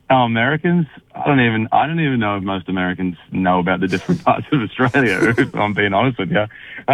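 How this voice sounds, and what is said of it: Australian accent. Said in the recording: “the Australian accent doesn't go astray”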